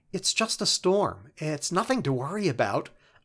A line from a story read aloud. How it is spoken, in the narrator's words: a feminine voice whispered nervously